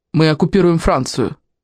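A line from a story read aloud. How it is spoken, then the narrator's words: Rude interrupting soldier. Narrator (Russian): грубо перебил ее солдат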